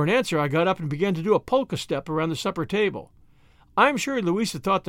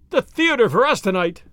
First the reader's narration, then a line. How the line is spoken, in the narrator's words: I shouted